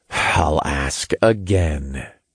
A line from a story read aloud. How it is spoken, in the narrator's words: I sighed